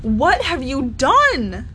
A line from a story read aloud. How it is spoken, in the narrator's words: she cried